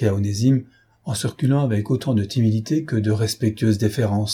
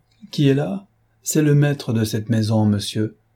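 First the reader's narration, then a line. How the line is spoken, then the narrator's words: Harsh reply. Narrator (French): Cloarec, toujours oublieux de l'infirmité de ce jeune homme, trouva la question impertinente et lui répondit durement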